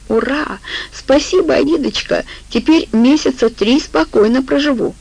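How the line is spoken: Joyful shout. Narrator (Russian): Алла радостно закричала

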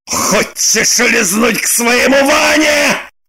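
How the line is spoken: Furious shout. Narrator (Russian): В бешенстве закричал он

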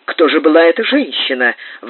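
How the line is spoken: Old man grumbling. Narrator (Russian): ворчал старый Джек

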